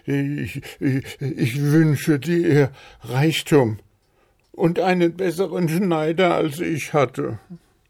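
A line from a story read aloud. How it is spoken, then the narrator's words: Embarrassed stammering. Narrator (German): Ohren wurden ganz rot und er stammelte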